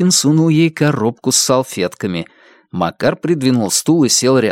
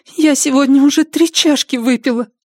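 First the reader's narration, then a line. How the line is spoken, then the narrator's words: Sobbing. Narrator (Russian): всхлипнула Анаит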